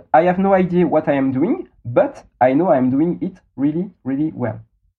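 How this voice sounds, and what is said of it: French-accented English. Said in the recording (French): “Beautiful French accent”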